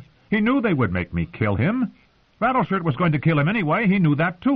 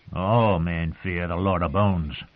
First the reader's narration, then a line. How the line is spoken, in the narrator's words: the wildling grumbled